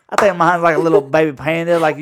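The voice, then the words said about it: Exaggerated country twang. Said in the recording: “Can you say that more country? little twang there”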